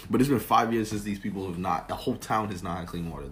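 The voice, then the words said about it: Lowered, quieter voice. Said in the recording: “Let me lower my voice again because it got kind of crazy.”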